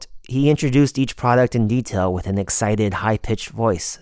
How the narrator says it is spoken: says Qin

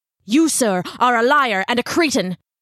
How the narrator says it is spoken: Ichabod snarled

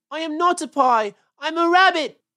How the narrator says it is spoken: wailed Peter suddenly

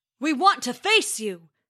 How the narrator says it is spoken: bellowed Thor

